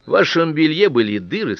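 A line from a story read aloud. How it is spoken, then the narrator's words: Plain. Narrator (Russian): сказала она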